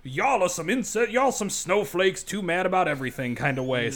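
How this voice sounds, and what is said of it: Angry old man voice. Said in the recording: “my angry old man voice”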